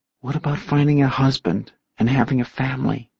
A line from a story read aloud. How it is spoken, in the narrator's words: Jordan asked softly